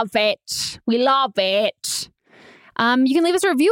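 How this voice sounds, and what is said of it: Usual voice. Nothing is said of it.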